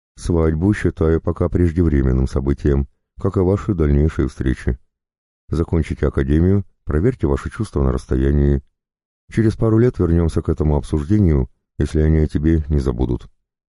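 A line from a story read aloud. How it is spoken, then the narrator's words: Neutral voice. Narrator (Russian): нейтральным голосом предложил Карпов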